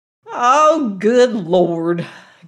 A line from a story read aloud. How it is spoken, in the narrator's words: groaned Granny